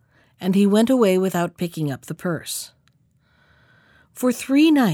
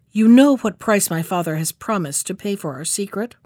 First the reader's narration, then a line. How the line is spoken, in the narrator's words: said to him in a harsh voice